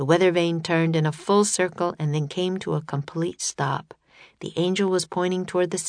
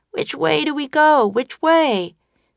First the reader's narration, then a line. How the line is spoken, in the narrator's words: Jack called out